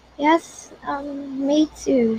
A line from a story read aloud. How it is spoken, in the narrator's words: she stammered